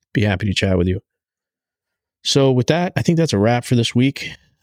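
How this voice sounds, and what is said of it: Tired, worn-out voice. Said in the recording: “My voice is starting to wear out here anyway.”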